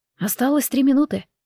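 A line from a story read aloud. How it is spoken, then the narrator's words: Quiet announcement, servant. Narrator (Russian): тихо объявил слуга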